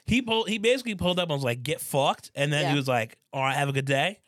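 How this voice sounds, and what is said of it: Put-on Australian accent. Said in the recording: “I'm speaking an Australian accent ... I can't get this Australian accent out of my head”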